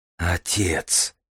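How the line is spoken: Pale whisper. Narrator (Russian): прошептал Дар бледнее

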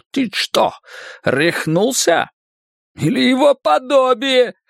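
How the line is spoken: Shouting. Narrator (Russian): Фриц выпрямился в кресле и закричал

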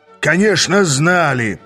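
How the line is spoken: Growled. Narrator (Russian): прорычал Шайкстер

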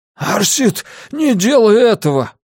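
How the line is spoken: Hoarse wheeze. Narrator (Russian): прохрипел Грюнвальд

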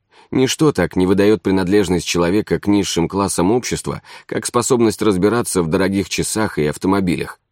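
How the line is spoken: Quick addition. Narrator (Russian): быстро добавил Марковин

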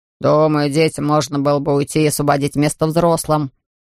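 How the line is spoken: Grumbling man. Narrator (Russian): проворчал какой-то мужчина

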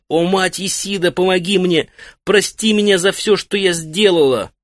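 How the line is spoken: Screaming in agony. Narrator (Russian): В самый разгар страданий Сидуду закричала

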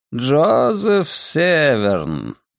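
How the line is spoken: Drawling. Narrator (Russian): протянул он

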